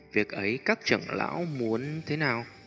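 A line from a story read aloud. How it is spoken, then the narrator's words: Careful, embarrassed. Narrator (Vietnamese): Tiêu Viêm vẻ mặt hơi xấu hổ, cười gượng mấy tiếng, đợi khi ổn định tâm tình mới cẩn thận nói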